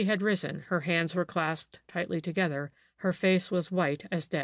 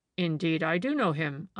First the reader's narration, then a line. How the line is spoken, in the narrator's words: I answered